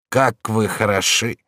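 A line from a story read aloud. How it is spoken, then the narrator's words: Smiling, sighing. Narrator (Russian): проговорила она, улыбнувшись и вздохнув одновременно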